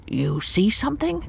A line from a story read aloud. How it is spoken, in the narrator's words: whispered